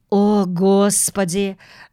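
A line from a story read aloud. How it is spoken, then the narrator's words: Sigh. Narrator (Russian): вздохнула миссис Браун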